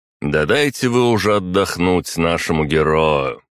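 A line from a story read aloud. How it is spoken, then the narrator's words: Loud. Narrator (Russian): громко произнес княжич Пермский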